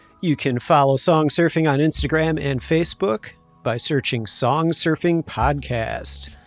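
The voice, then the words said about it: Smooth jazz radio DJ voice. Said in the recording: “I'm slipping into like a smooth jazz radio voice or something”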